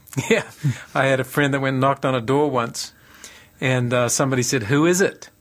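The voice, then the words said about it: Mixed New Zealand and American accent. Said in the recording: “you've got a bit of an interesting mix of accents there. Is it American? Is it New Zealand? Is it Australian? ... I'm actually a Kiwi ... The accents are really mixed up”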